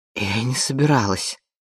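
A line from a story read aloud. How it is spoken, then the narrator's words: Suddenly hoarse wheeze. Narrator (Russian): прохрипела она внезапно севшим голосом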